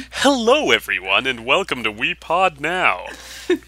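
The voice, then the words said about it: Exaggerated announcer voice. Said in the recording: “your announcer voice ... you're doing that voice”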